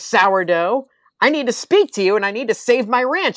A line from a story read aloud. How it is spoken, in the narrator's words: Ernst yells